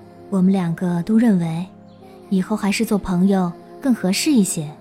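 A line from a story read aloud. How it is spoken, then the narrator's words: Soft gentle voice. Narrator (Chinese): 杜若恒柔声说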